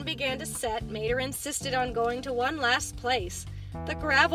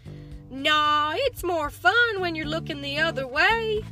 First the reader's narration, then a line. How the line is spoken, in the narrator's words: Mater said, chuckling